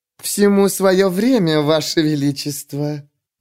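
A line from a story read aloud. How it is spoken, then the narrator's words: Purring. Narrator (Russian): промурлыкала судья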